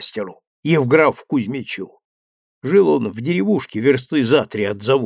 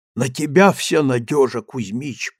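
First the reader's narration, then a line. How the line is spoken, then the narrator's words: Whisper. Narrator (Russian): прошептал я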